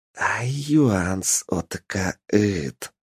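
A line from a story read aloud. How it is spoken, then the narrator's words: Whisper right in ear. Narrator (Russian): шептало прямо на ухо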